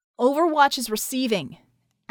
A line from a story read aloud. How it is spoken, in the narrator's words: Acrobat said loudly